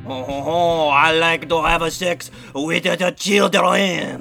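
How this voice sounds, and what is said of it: Put-on French accent. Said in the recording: “Let's do our French impressions ... my French accent is so good ... It really sounds like a French guy.”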